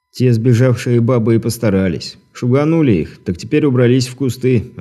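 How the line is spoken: Plain. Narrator (Russian): ответил Дмитрий

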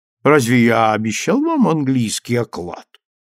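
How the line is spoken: Mocking. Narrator (Russian): Насмешливо обратился ко мне конократ

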